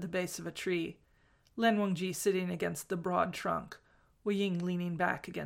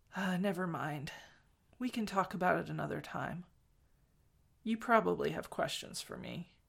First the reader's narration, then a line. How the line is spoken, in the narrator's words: He stopped and then said, more softly